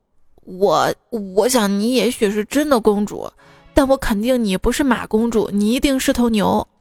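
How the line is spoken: Sighing. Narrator (Chinese): 白马叹了口气说

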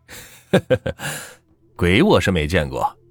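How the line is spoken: Laughing. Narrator (Chinese): 朋友笑道

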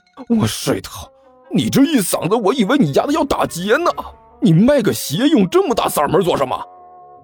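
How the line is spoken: Angry roar. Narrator (Chinese): 那人吼道

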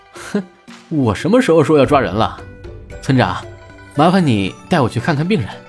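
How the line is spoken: Laughing. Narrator (Chinese): 朱熹笑着说道

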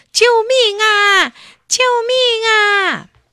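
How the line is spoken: Frantic screaming. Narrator (Chinese): 它急得大喊大叫

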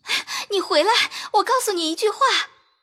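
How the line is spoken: Anxious hurried shout. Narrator (Chinese): 袭人急得赶着嚷道

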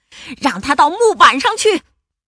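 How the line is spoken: Two men shouting. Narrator (Chinese): 条纹裤本克和黑眼罩帕西大喊道

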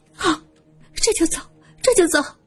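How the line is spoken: Hurried, tearful. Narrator (Chinese): 萧琴，他急忙擦擦眼泪说

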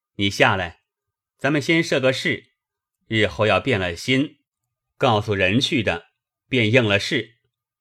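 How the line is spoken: Smiling. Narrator (Chinese): 香莲 向薛蟠笑道

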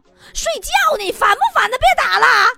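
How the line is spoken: Annoyed shout. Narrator (Chinese): 午睡的女同事被吵烦了 大吼

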